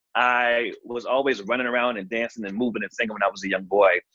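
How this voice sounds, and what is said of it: Norfolk, Virginia accent. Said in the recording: “I am from Norfolk, Virginia. I was born in Richmond, but I was raised in Norfolk. And you can probably hear the accent right there.”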